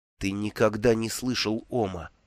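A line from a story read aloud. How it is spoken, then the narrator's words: Whisper. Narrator (Russian): прошептал Бруто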